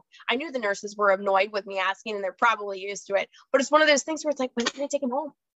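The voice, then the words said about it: Minnesotan accent. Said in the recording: “I'm in Minnesota, if my accent hasn't betrayed me yet.”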